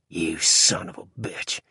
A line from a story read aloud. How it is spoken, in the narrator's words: hissed Fitzgerald